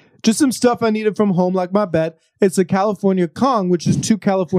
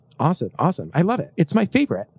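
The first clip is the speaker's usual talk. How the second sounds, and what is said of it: Imitates another person's voice. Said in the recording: “This is my Jimmy Fallon impression.”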